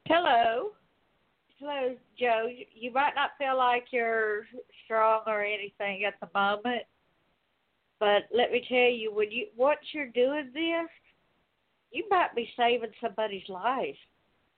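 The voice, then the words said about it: Southern drawl. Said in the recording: “has that southern drawl”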